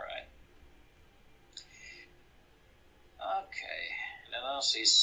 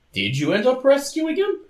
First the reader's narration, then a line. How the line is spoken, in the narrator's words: says, blurting it out in spite of himself